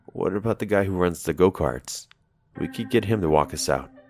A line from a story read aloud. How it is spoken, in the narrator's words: she said